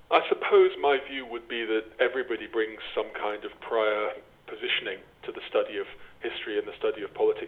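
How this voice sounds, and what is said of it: English accent, not Irish. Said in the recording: “As my accent indicates, I didn't grow up in Ireland. I grew up overwhelmingly in England.”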